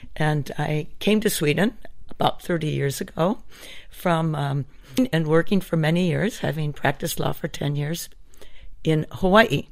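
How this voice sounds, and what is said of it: American accent. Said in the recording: “as anyone could probably pick up from my accent, I'm actually an American”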